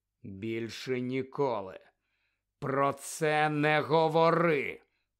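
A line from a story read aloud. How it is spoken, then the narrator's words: Hissed. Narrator (Ukrainian): прошипів Гаррі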